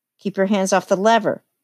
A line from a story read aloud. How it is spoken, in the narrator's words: snapped the elevator boy